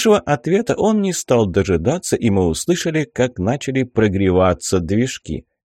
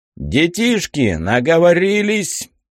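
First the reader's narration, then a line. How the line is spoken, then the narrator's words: Loud question over loudspeaker. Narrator (Russian): громко спросил нас пилот через громкую связь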